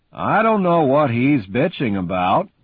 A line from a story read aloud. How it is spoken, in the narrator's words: Pucky says sullenly